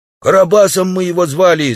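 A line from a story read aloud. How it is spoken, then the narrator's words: Naked man shouting. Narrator (Russian): закричал голый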